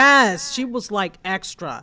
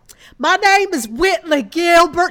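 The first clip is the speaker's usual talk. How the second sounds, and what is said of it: Exaggerated Southern accent impression. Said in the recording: “accent alone was fingernails on a chalkboard ... she has a slight Southern accent, but she, you know, played it up overly for this role ... It was too much ... hearing you say it like that”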